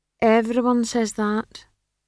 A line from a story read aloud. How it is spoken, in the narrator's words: said Treetle gloomily